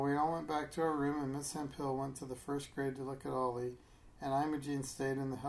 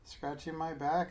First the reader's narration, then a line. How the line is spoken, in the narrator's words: Imogene said